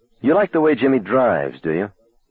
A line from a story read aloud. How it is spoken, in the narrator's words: Will looked at Arnie for a moment and then sighed